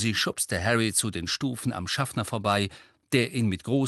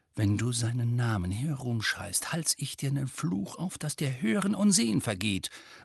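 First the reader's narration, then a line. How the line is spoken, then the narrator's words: Threatening mutter. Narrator (German): murmelte Tonks drohend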